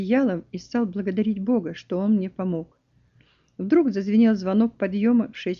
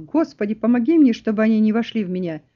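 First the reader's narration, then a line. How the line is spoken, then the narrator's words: Loud. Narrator (Russian): я громко сказал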